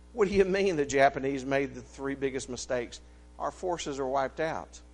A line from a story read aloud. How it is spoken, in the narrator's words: The young man, without thinking of the rank of this flag officer, blurted out